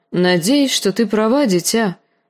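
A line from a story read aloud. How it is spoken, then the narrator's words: Sighed, uncle. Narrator (Russian): вздохнул дядя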